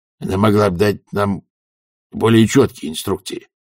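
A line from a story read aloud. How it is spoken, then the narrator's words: Grumbling. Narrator (Russian): проворчал Хьюилл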